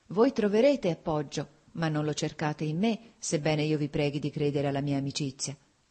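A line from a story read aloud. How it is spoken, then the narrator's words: Sighing woman. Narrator (Italian): ella disse con un sospiro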